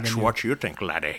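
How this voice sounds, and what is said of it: Scottish-accented film star impression. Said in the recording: “best Sean Connery impression”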